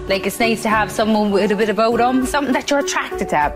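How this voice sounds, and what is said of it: Thick Irish Cork accent. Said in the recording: “I'm from Cork ... I know the accent. Like, it's a bit of a tick accent.”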